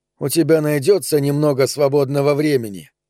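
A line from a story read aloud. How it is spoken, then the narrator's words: Plain. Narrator (Russian): спросил Энцо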